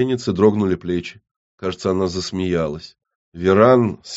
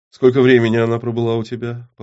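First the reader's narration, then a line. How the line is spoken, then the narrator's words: Calm question. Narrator (Russian): по-прежнему спокойно поинтересовалась Зур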